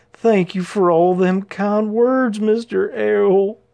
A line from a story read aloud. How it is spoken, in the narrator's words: he sobbed